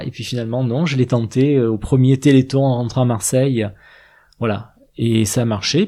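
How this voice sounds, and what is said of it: Marseille French accent. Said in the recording (French): “à ton accent, on l'entend ... tu es de Marseille”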